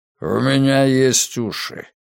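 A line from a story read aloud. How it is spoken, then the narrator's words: Grumbling. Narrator (Russian): проворчал Ритвенко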